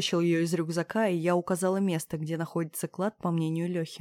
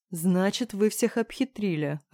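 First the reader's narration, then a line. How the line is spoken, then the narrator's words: Laughing. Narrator (Russian): рассмеялся он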